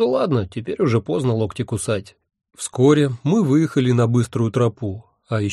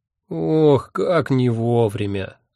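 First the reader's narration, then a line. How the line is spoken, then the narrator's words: Vexed groan. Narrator (Russian): с досадой простонал Эбенгальф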